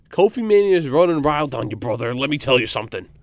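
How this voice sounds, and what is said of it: Wrestler impression, sounds like Macho Man. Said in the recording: “the impersonations ... I feel like I sound more like Macho Man there.”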